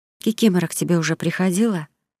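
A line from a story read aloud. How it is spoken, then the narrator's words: Secretive whisper. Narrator (Russian): зашептала она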